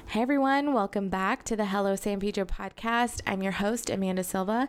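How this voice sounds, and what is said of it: Raspy, hoarse voice. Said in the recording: “I'm sorry for my ongoing cold. You can probably hear it in my voice ... you can kind of hear a little bit of my, you know, raspiness and my coughing”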